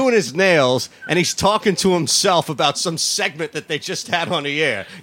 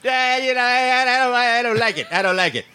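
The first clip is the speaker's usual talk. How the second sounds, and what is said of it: Imitates another person's voice. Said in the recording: “That's a good Mad Dog impersonation.”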